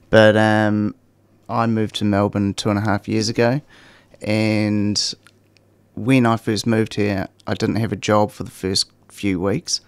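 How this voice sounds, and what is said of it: New Zealand accent. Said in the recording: “you can probably tell by the accent, I'm from New Zealand”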